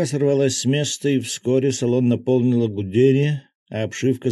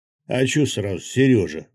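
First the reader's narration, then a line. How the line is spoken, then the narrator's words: Gruff mutter. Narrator (Russian): буркнул Рыбак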